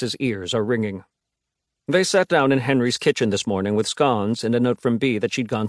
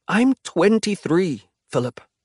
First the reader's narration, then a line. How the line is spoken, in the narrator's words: Henry says, audibly struggling to keep his voice even